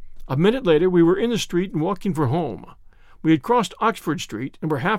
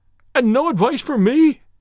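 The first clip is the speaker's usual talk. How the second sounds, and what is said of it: Cried out in a breaking voice. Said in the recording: “cried Blushington in a breaking voice.”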